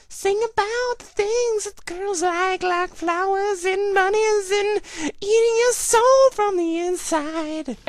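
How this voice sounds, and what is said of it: Put-on sexy singing voice. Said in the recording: “in my sexy voice”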